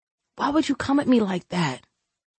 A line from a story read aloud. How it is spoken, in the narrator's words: he whispered heavily